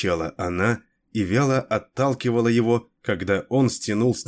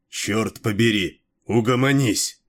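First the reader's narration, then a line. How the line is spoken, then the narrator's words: Barked, angry. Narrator (Russian): рявкнул он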